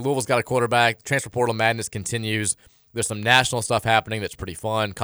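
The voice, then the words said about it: Voice sounds sick. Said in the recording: “If you can't tell by my voice ... just begging not to get sick ... we're all dealing with something”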